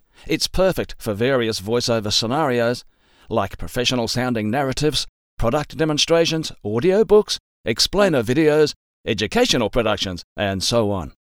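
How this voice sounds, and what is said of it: Mild Australian accent. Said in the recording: “my usual voice and normal way of speaking, with what I'd describe as a mild Aussie accent”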